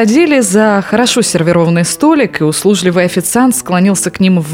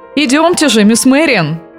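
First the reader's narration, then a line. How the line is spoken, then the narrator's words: Cheerful, refined politeness. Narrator (Russian): весело, но с изысканной вежливостью сказал молодой архитектор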